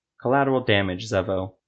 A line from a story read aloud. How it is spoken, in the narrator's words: Nulif said